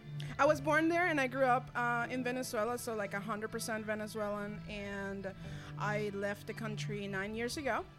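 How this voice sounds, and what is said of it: Venezuelan Spanish accent. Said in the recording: “I knew I heard an accent. ... I heard it. I love it. So your first language is Spanish.”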